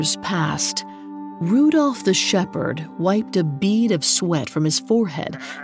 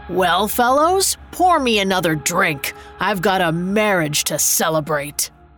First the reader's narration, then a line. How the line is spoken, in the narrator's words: declaring in a triumphant voice